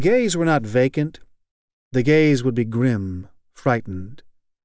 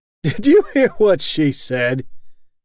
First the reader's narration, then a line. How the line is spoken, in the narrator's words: The ironic man on the divan laughed